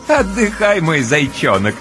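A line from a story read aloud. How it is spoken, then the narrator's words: Playful chuckling. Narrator (Russian): с игривым хохотком разрешает Ночка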